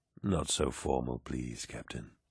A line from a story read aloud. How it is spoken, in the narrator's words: whispered Horus